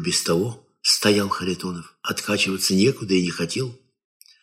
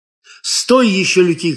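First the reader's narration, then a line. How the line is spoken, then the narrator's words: Shouting. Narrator (Russian): кричал Кабанок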